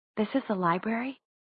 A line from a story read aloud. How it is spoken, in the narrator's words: she said to Jace in a whisper, though she wasn't sure why she was whispering